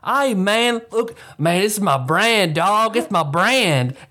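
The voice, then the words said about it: Strong put-on country accent. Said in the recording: “the strongest country accent I've ever heard”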